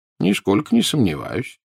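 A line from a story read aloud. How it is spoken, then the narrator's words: Calm reply. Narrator (Russian): спокойно ответил Дамблдор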